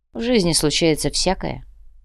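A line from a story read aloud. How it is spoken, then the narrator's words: Calm mercenary reply. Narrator (Russian): спокойно ответил наемник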